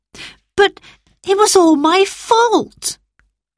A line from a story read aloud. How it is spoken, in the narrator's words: cried Roberta